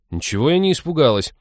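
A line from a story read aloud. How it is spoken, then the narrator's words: Indignant. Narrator (Russian): возмутилась Молли в унисон с рычащим псом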